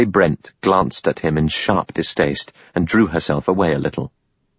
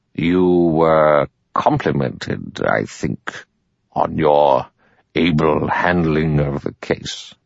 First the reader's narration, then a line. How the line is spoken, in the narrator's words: Wargrave said slowly